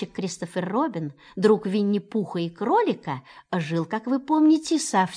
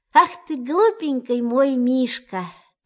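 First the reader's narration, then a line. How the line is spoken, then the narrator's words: Tender soothing voice. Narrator (Russian): таким ласковым голосом, что у всех сразу стало легче на душе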